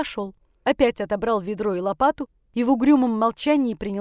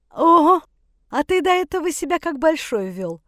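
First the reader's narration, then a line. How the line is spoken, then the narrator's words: Sly mocking inner laugh. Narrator (Russian): Подленько рассмеялся внутренний голос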